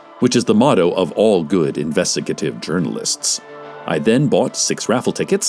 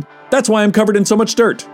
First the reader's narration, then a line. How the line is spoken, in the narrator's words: he barked